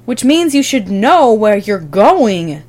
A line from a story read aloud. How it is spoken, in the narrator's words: John snaps